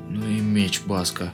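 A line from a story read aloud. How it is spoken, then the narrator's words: Strained, exhausted. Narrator (Russian): выдавил из последних сил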